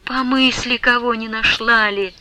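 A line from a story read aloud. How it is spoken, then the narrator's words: Whisper. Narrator (Russian): шептала ей Манефа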